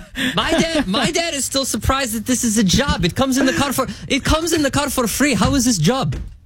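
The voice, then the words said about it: Put-on accent imitating a parent. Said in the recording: “My dad doesn't have an accent. It's just funnier for the story.”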